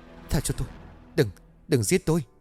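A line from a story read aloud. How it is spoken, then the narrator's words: Terrified trembling murmur. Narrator (Vietnamese): Cô ta sợ quá run rẩy mấp máy rồi bảo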